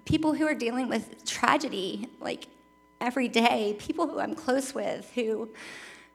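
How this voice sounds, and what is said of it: Emotional, tearful voice. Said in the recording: “get emotional ... You knew I would cry up here”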